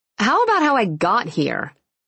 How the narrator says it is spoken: She asked irritably

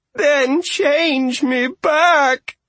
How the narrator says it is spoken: Argabella moaned

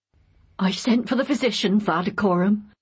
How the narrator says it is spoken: said the woman shakily

